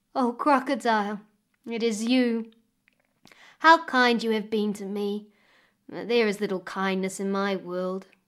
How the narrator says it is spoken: sighed Demura

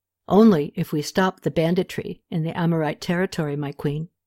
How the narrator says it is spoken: Nizer said quietly

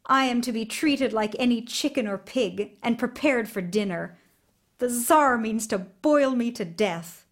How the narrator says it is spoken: Ivan told him bitterly

